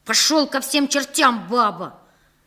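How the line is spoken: Sharp shout. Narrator (Russian): прикрикнул на него старший из нашей маленькой армии

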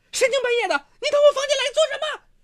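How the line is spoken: Loud shout. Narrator (Chinese): 孙世珍高声喊道

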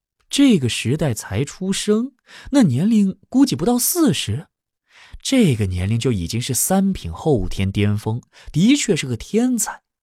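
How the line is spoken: Laughing reply. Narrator (Chinese): 黄山真君哈哈一笑，回道

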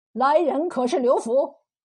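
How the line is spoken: Dazed reply. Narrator (Chinese): 那汉子愣愣的应声说是

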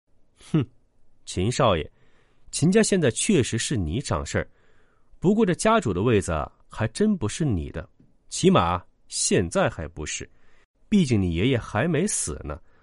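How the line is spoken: Smiling. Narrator (Chinese): 杨丽笑了笑，说道

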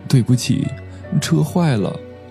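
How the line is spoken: Crying. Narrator (Chinese): 堂姐没忍住，哭着说

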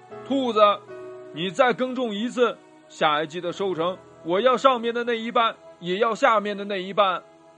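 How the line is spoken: Angry shouting. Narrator (Chinese): 大熊生气的叫着

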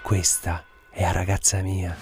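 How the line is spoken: Whispered into ear. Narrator (Italian): gli sussurrò all'orecchio

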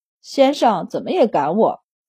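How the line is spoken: Low grumbling. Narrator (Chinese): 忍不住低声抱怨

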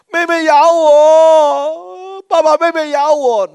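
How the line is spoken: Crying child complaining. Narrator (Chinese): 儿子抓住手在哭 我的儿子就指着妹妹 指着妹妹说

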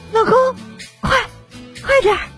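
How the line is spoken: Panting. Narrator (Chinese): 我媳妇儿 同样喘着粗气说

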